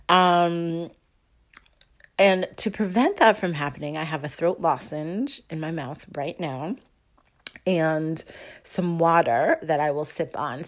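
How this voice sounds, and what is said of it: Slightly raspy voice. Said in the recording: “my voice is a little bit graspy, um, or raspy, uh, rather, raspy, not graspy”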